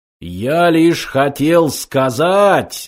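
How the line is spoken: Deafening machine roar. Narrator (Russian): оглушительно взревел компьютер

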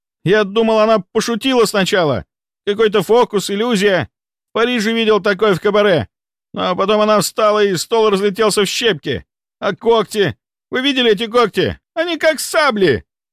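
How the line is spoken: Rising to a shriek. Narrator (Russian): Он повысил голос до визга

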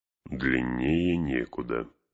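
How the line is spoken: Grumbling. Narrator (Russian): проворчал Гэндальф

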